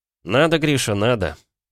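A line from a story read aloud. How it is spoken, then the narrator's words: Sighing. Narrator (Russian): вздохнул я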